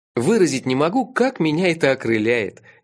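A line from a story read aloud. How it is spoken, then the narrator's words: Involuntary laugh. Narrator (Russian): невольно рассмеялся я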